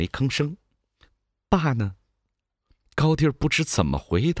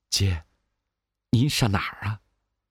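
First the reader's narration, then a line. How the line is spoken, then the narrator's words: Low question. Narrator (Chinese): 招弟低声地问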